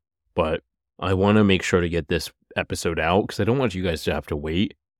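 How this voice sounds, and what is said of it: Congested, nasal, sick-sounding voice. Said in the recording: “I am a little bit sick ... the sniffles you might hear ... I sound so nasally ... I literally have to blow my nose every 10 minutes”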